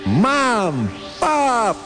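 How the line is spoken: Shouting with all might. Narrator (Russian): крикнул он изо всех сил

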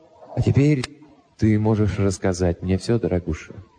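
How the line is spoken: Soft. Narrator (Russian): мягко добавил я

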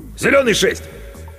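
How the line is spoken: Shout. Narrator (Russian): крикнул

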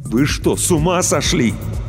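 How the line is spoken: Barely restrained, near shouting. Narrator (Russian): Иван с трудом сдерживался, чтобы не закричать

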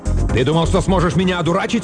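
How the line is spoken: Sudden bark. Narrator (Russian): внезапно рявкнул Эш

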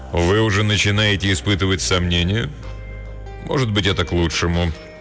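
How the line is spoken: Sighing. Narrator (Russian): Он вздохнул

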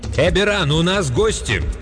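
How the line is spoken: Woman's unnaturally loud shout. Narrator (Russian): Голос женщины прозвучал неестественно громко, когда она крикнула

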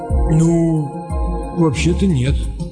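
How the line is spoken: Confused mumble. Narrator (Russian): растерянно промямлил разведчик

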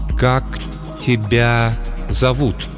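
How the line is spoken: Cautious, unsure. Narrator (Russian): Эту фразу она произносит осторожно и неуверенно

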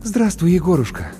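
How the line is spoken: Relieved exhale. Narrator (Russian): облегченно выдохнула Маша

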